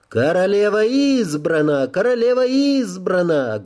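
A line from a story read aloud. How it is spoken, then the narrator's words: Fat man loud squealing. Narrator (Russian): громко заверещал толстяк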